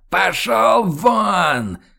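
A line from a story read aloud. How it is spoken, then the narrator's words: Furious deafening yell. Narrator (Russian): Хьюго побагровел и заорал так, что перепуганные танцовщицы замерли на подиумах, а музыка оборвалась и умолкла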